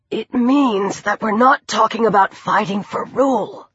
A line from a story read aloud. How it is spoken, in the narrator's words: Chris rasped